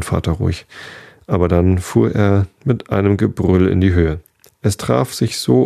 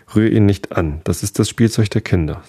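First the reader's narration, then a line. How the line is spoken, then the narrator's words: Plain. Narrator (German): sagte sie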